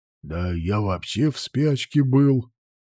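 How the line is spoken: Grumbling mutter. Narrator (Russian): буркнул Нагель

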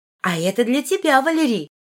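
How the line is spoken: Joyful exclamation. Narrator (Russian): радостно воскликнула Сильвана

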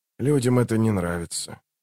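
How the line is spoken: Quiet conclusion. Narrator (Russian): тихо закончил Ток

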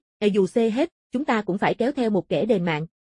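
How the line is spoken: Cold woman's voice. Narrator (Vietnamese): Nàng lạnh lùng nói

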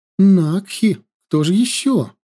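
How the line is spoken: Joyful reply. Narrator (Russian): радостно ответила Вирия

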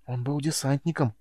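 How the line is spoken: Worried whisper. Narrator (Russian): обеспокоенно прошептал Сьюгар

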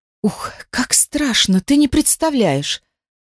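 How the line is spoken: Breathless, casual tone. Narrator (Russian): Выдохнула и добавила, как ни в чем не бывало, тяжело дыша

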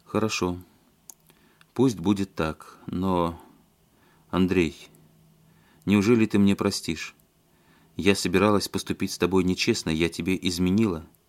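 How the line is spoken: Quiet. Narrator (Russian): Она тихо сказала

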